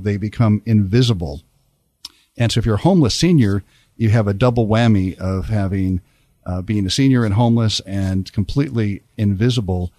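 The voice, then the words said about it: Polished radio announcer voice. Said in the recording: “I can definitely tell you've worked in radio. You have the radio voice.”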